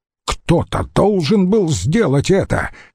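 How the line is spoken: Sharp. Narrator (Russian): резко ответил Помпей

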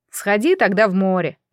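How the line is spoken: Simple, then laughing. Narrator (Russian): просто сказал хозяин лодки и расхохотался

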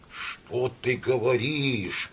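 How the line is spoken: Mutter. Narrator (Russian): пробормотал Самойленко

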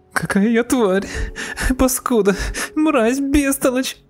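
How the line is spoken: Sobbing. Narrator (Russian): Она зарыдала

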